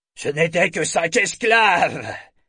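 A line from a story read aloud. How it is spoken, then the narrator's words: Commander roaring. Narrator (French): rugit le commandant du Cicerne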